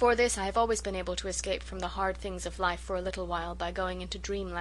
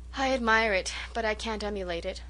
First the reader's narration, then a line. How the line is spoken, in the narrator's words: sighed Gertrude